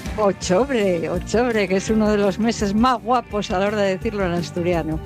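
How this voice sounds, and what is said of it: Asturian Spanish accent. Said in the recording (Spanish): “Mira qué bien le sale a Laura Castañón el acento asturiano. Cómo se nota que es de...”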